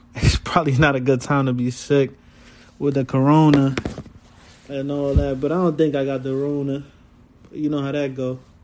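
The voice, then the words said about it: Slightly off, sick-sounding voice. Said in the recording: “I'm a little sick right now, so my voice might sound a little off.”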